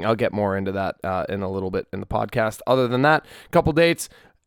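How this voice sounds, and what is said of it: Slightly hoarse voice. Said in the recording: “My voice is a little hoarse right now. I sang for 4 hours last night”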